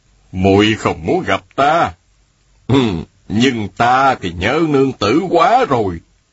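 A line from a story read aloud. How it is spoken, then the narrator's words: Smiling. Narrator (Vietnamese): An đại nhân mỉm cười, y nói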